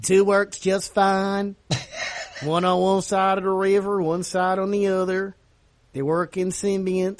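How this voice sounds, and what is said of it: Put-on Monroe Louisiana accent. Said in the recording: “suddenly you got a Monroe accent. ... I'm horrible at accents.”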